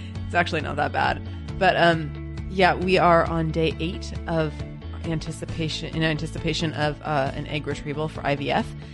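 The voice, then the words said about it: Stuffy, sick-sounding voice. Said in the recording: “I have a cold”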